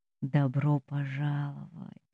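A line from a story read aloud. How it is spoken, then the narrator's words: Soft, close to the ear. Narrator (Russian): говорит он тихо на ухо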